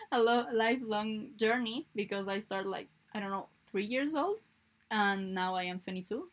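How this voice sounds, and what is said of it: Non-native English accent. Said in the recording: “i don't have that good english i confuse a lot ... i'm not bothered about my accent but i know i can pronunciate some things better”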